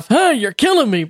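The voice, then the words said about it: Imitation of a puppet character's voice. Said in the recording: “my imitation of Alf”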